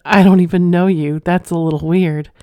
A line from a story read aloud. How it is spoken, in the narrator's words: She giggled and said